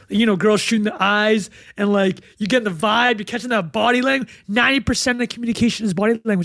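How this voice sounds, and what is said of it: Excited yelling. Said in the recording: “I'm yelling right now, people. Sorry, I'm going to tone it down a bit. Got a little bit excited.”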